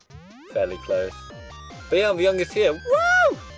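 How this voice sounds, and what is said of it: High-pitched young male voice. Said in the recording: “high voice ... Poor lad, voice hasn't broken yet.”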